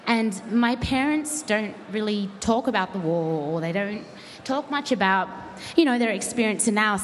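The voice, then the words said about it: Australian accent. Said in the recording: “as you can tell, I have an Australian accent”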